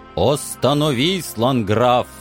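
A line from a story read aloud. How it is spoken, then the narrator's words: Booming voice. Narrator (Russian): еще раз прогремел знакомый голос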